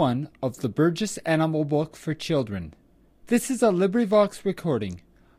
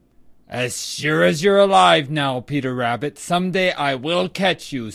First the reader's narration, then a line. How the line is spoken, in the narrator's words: snarled Reddy Fox